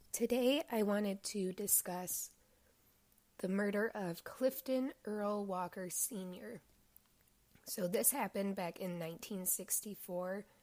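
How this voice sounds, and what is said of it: Voice sounds unwell, not normal. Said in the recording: “Please excuse my voice again. It is just persistent as hell. It's not getting better.”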